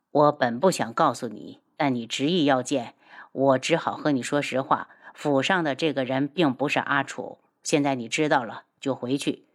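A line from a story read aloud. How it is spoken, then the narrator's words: Sighing. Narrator (Chinese): 轩辕志叹了口气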